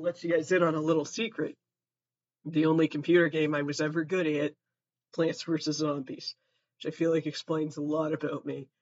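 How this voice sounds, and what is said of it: Hoarse, fading voice. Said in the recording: “i'm fucking losing my voice”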